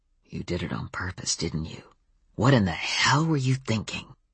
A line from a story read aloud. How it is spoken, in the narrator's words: Adam said in a low voice that wouldn't carry beyond us